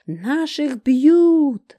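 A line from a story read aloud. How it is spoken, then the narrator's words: Loud yell. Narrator (Russian): Рыжая как завопит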